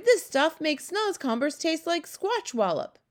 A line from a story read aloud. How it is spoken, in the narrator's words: he cried